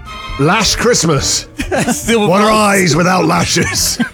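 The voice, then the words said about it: Put-on Scottish accent. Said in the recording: “Don't know why I've got a Scottish accent there.”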